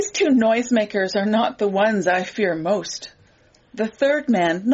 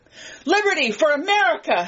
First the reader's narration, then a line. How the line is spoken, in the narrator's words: screams